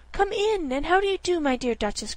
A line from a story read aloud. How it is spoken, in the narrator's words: cried Ribby